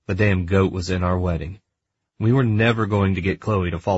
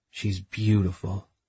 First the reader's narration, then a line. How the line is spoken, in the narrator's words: I whispered as a smile spread over my face